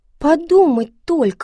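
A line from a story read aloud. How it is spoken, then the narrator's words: Exclaim. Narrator (Russian): воскликнула Пеппи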